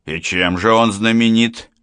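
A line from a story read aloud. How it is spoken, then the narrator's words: Skeptical snort. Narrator (Russian): хмыкнул Стас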